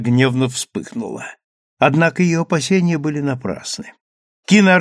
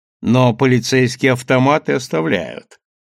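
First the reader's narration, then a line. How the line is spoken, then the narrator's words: Laughing. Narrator (Russian): рассмеялся Чезаре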